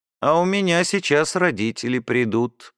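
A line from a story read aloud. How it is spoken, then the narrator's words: Gloomy female voice. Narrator (Russian): мрачно проговорила Баженова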